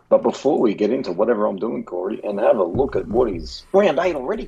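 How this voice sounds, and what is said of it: Damaged, hoarse voice. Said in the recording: “my voice is still fucked, man. I'm still recovering”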